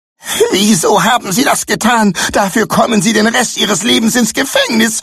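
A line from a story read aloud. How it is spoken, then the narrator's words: Desperate scream. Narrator (German): schrie sie verzweifelt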